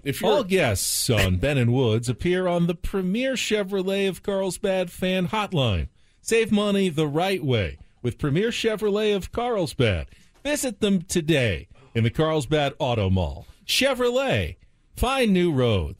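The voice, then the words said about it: Condescending radio announcer voice. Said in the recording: “I really feel like I can do condescending announcer guy ... You do have a good announcer voice”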